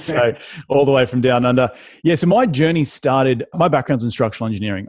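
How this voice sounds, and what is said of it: Australian accent. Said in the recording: “clearly, I'm from Australia ... My I call my deep southern accent, the really southern accent.”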